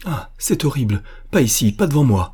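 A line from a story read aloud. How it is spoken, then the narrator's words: Exclaimed. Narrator (French): s'écria Diane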